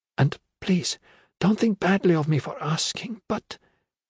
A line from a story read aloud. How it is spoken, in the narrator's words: Her voice became a frightened whisper